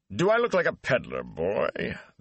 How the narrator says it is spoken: the Gleeman grumbled

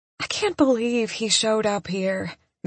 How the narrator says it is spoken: Missy says in a dreamy voice

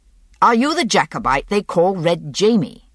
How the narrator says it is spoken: he asked again, impatiently

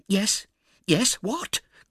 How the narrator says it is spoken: cried the other

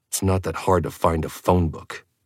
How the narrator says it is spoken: I growled

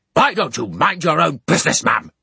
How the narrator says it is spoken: roared Bounderby

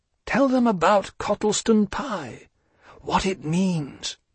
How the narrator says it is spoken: Pooh whispered, a little more clearly

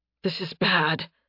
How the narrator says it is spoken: Nathan gasped

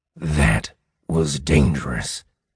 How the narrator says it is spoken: Mordecai whispered to me

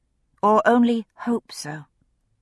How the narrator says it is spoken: He sighed

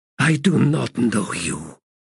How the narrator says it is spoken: she growled

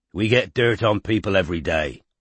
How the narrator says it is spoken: said Strike roughly

